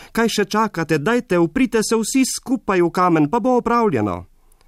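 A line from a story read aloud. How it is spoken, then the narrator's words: Calling from afar. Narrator (Slovenian): je zaklical oddaleč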